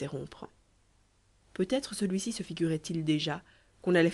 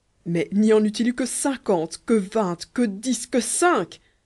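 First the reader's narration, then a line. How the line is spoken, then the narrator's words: Agitated, overexcited exclamation. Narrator (French): s'écria le seigneur Kéraban, que la contradiction commençait comme toujours à surexciter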